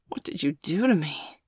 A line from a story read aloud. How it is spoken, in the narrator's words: Bailey gasped